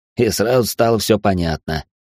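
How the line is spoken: Snort. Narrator (Russian): хмыкнул Алекс

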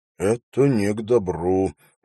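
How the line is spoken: Muttered from behind. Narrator (Russian): пробормотал Хоррес позади него

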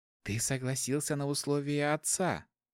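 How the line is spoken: Completely calm voice. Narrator (Russian): уже совершенно спокойным голосом сказала Дайнана

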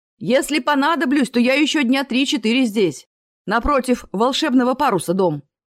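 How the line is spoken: Called out after. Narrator (Russian): крикнул он вслед

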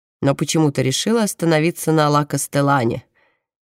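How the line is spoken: Mocking. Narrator (Russian): насмешливо произносит за их спиной Паулина Марина

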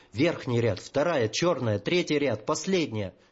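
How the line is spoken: Hoarse rasp in ear. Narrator (Russian): хозяйка, претерпевшая столь ошеломляющие метаморфозы, прохрипела прямо в ухо

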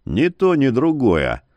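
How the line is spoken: Grumbled. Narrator (Russian): буркнул Яромир

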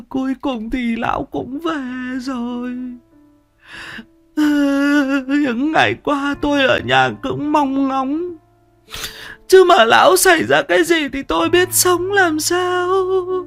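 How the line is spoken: Tearful, whimpering. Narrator (Vietnamese): lau đi những giọt nước mắt lạ chã, liền mếu máo

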